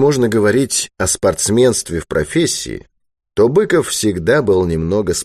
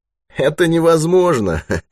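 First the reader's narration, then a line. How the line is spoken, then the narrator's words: Laughing. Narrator (Russian): засмеялся Спицын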